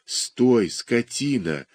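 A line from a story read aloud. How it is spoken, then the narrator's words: Hissing. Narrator (Russian): шипел доктор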